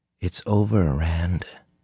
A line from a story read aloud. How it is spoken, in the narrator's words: Min said gently